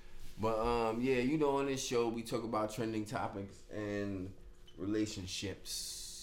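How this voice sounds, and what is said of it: Slight accent, rhythmic speech. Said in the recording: “it's probably because the way I talk or whatever ... I got a little accent. My shit go like this sometimes. I'll be dancing with my words.”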